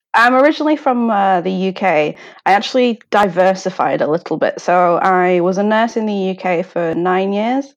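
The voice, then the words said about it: British accent. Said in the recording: “people can probably surmise by your accent that you are not originally from Japan”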